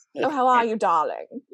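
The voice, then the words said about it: Mid-Atlantic accent impression. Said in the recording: “You got your good mid-Atlantic accent going”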